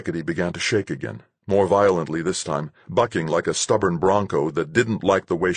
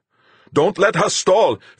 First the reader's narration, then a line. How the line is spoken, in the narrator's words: Fuchs shouted